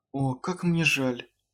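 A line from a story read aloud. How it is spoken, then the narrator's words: Gentle. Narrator (Russian): мягко сказала Аманда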